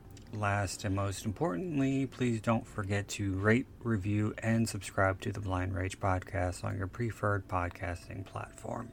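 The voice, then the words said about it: Slightly raspy voice. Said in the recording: “I got a little raspy there.”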